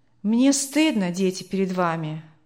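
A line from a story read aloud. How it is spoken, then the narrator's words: Father's sigh. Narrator (Russian): вздохнул отец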